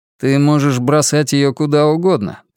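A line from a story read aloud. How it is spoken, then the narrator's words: Muffled grumbling. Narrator (Russian): проворчал лорд из-за журнала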